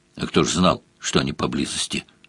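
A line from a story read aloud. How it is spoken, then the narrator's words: Unrepentant deep bass. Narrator (Russian): пробасил гном без малейшего раскаяния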